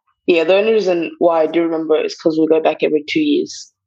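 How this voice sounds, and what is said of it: Distinct British-sounding accent. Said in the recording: “there's still a distinct accent... It's a British accent... speaks to Queen's English”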